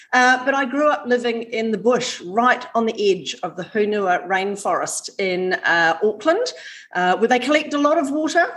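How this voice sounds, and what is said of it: New Zealand accent, somewhat Australian-sounding. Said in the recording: “My accent might sound Australian, but I am actually a New Zealander. But I do live in Australia. So, yeah, not surprising. I sound a bit Aussie.”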